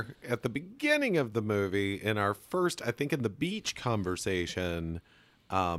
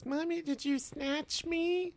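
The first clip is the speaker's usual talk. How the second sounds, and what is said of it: Impression of Angela from the movie. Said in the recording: “That's a great impression of her. She said it just like that.”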